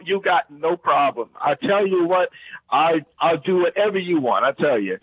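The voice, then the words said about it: Heavy Louisiana accent. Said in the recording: “speak in your heaviest Louisiana accent ... That was incredible.”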